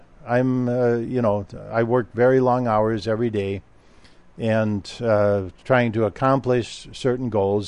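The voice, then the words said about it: Tired-sounding voice. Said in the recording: “you might be able to hear it in my voice a little bit, but I'm tired.”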